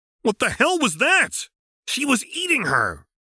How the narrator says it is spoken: Terezi yelled defensively

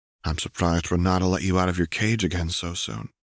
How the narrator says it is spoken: a little more evenly said

